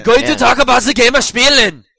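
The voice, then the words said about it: Thick put-on German accent. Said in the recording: “You gotta say it in a thick German accent.”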